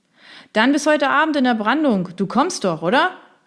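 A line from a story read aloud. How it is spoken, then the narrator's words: Loud shout over surf. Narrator (German): rief er ihm laut durch die Brandung zu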